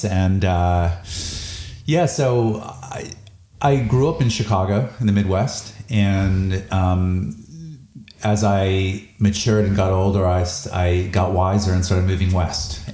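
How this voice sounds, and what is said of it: North American accent. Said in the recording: “you've got a bit of an accent there ... I'm North American”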